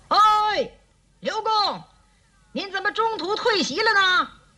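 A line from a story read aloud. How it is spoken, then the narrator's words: Shouting. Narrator (Chinese): 蔡瑁隔着檀溪喊道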